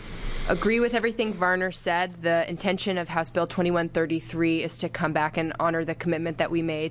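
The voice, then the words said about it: Strained, hoarse, failing voice. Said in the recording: “I'm losing my voice”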